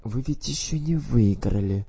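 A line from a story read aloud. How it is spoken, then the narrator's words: Soothing whisper. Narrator (Russian): прошептал Уормалд, пытаясь его утихомирить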